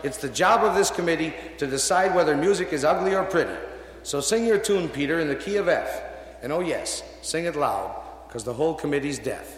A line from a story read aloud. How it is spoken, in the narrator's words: the commissar shouted